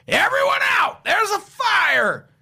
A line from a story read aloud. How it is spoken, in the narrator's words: I ran to the entry and yelled in